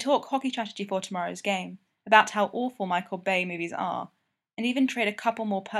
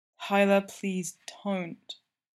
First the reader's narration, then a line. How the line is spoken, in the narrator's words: Geordie whines